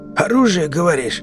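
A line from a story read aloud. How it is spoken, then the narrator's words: Hoarse. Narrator (Russian): хрипло проговорил Сивый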